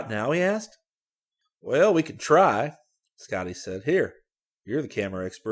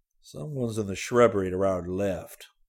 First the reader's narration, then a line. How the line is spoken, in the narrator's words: he whispered in Rick's ear